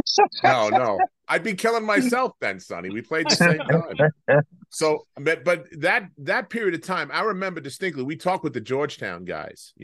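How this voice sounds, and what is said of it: Long Island accent. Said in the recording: “That's my Long Island accent”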